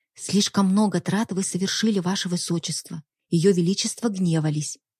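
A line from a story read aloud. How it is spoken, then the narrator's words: Barely audible. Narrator (Russian): добавила едва слышно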